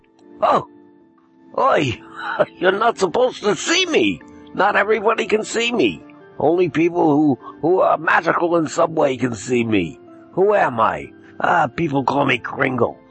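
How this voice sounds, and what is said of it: Strained put-on character voice. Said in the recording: “I'm gonna have a coughing fit now because of this stupid voice.”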